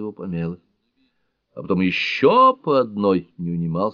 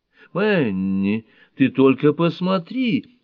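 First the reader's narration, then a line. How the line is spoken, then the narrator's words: Horrified exclamation. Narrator (Russian): в ужасе воскликнула Бельроузен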